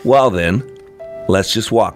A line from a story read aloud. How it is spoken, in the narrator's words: I said